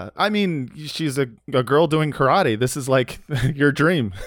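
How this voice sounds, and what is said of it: Usual voice. Nothing is said of it.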